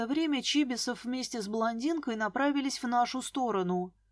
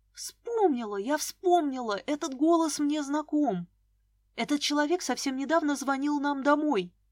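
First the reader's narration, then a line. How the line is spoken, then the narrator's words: Hiss. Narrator (Russian): зашипела я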